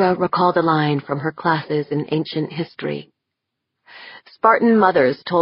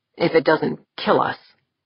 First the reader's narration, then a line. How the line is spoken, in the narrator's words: Jaeger muttered